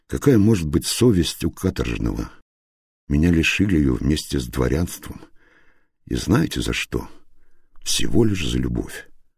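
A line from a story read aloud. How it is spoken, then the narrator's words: Bitter sigh. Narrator (Russian): горько вздохнул Охлестышев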